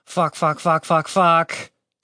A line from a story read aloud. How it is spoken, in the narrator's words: Tim muttered to himself